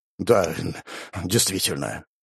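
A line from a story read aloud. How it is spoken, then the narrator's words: Guilty mutter, big man. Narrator (Russian): виновато буркнул двухметровый Андрей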